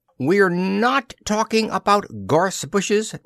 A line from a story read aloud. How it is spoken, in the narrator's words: said Owl a little crossly